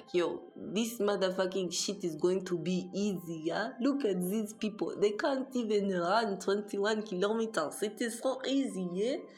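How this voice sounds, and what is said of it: Put-on Russian accent. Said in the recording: “I don't even know if that's a Russian accent, but that's my Russian accent.”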